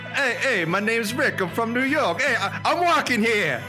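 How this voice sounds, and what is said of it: Imitates another person's New York voice. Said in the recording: “I might have to do a New York Rick impression ... They know that's what he sounds like”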